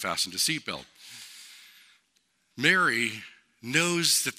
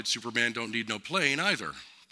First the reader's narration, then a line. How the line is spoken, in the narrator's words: the stewardess quickly replied